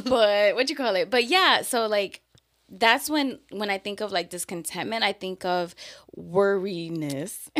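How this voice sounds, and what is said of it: New York accent. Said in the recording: “your New York really just be coming out”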